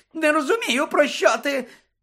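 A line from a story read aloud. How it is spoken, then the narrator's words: Shrieks again, more piercingly. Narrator (Ukrainian): знову заверещав Петігру ще пронизливішим голосом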